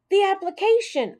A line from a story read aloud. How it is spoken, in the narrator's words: shouted